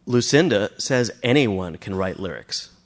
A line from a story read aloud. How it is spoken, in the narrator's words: said Matthew